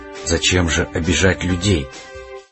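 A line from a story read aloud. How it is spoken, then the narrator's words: Quiet, reproachful question. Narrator (Russian): Остин спросил тихо и укоризненно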